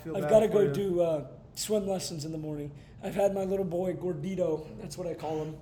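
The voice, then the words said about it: Strained, fading voice. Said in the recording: “My voice is definitely going to be gone now more in the morning.”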